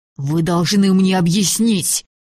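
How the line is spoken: Hissed through clenched teeth. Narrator (Russian): прошипел Сева сквозь стиснутые зубы

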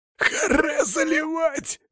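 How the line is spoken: Angry rasp. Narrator (Russian): прохрипел он от злости

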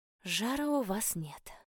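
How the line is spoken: Relieved exhale. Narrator (Russian): выдохнула я, облегченно

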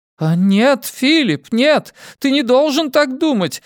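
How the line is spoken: Shouting woman. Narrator (Russian): закричала мисс де Хэвиленд

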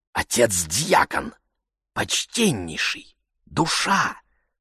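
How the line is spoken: Restrained persuasive whisper. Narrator (Russian): сдержанный, но убедительный шепот

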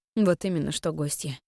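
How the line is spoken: Mumbled. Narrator (Russian): пробормотала

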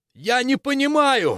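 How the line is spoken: Exclaiming. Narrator (Russian): воскликнул Максимилиан

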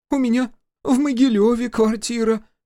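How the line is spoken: Squeak. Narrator (Russian): пискнула одна

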